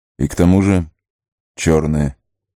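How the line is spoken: Gloomy. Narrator (Russian): мрачно добавил Арагорн

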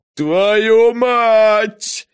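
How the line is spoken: Screaming in pain. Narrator (Russian): заорал Беллами, корчась от боли

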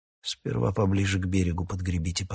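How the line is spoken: Calm demand. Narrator (Russian): потребовал Раканон спокойно

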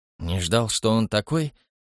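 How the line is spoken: Blurted question. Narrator (Russian): не удержался от вопроса Хэмилтон

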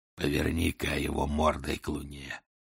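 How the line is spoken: Hoarse distant voice, English. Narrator (Russian): донесся хриплый голос, говоривший по-английски

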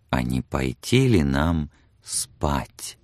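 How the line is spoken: Whispered close to ear. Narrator (Russian): его губы прошептали у самого ее уха

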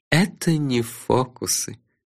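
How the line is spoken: Soft. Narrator (Russian): мягко сказал Нанко-йок

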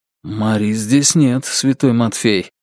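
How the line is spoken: Quiet, after pause. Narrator (Russian): тихо сказал Белизариус спустя пару секунд

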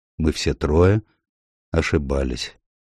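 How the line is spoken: Sad. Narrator (Russian): печально заключил доктор Райли

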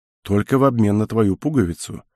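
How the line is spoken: Soft reply. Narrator (Russian): мягко ответил тот

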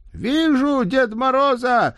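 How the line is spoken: Shouting. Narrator (Russian): закричал Гаврюш

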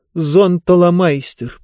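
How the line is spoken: Dejected voice. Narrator (Russian): проговорила Диба упавшим голосом

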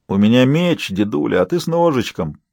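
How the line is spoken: Gruff grumble. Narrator (Russian): проворчал чернобородый разбойник

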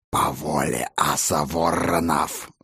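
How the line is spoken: Wolf's growl. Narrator (Russian): зарычал волк

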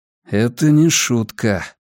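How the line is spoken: Muttered. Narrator (Russian): пробормотал я

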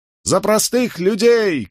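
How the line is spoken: Shouted reply. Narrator (Russian): крикнул в ответ повстанец

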